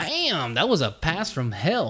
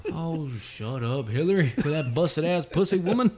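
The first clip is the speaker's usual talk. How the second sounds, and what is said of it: Poor imitation of another person's voice. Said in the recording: “that was the shittiest Bill Clinton impersonation.”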